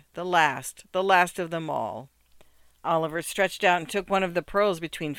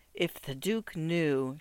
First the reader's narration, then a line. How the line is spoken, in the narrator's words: she whispered